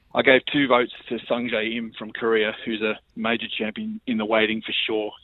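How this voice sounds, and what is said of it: Hoarse, worn-out voice. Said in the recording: “my voice is toast because I was raw at the time”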